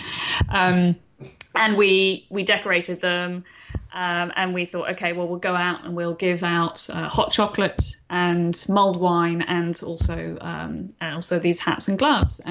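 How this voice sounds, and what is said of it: London English accent. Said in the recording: “London, which is where I'm from originally, as you can tell from my accent.”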